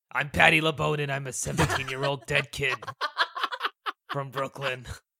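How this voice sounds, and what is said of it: Gangster-style Brooklyn character voice. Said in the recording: “he sounded like a gangster”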